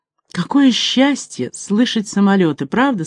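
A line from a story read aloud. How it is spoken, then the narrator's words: Plain. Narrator (Russian): сказала жена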